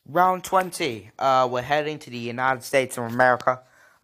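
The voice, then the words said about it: Terrible put-on American accent. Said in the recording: “How's a terrible American accent.”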